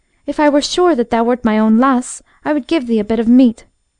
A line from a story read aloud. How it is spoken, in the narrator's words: she exclaimed